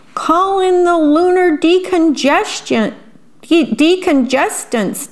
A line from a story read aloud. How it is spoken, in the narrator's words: Daddy Alien cried